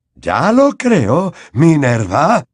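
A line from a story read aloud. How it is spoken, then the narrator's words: Vehement exclamation. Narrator (Spanish): exclamó Dumbledore con vehemencia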